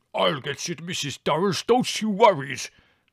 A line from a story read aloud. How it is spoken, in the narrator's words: roared Spiro